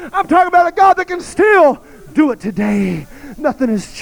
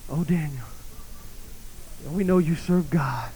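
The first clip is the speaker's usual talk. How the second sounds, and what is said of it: Mournful, lamenting voice. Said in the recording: “in a lamentable voice”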